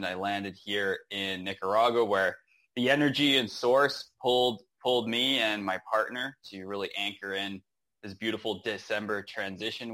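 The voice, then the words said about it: North American accent. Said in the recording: “I thought you were from the US ... Common mistake with the accent”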